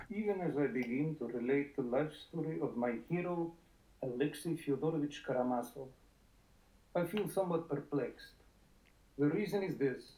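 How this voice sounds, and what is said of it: Hammy put-on Russian accent. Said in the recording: “putting on a hammy Russian accent. That's pretty good. It's pretty convincing.”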